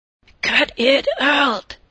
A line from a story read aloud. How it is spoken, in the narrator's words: hissed